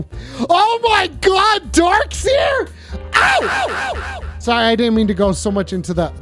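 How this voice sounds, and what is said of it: Screaming. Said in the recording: “I'm screaming.”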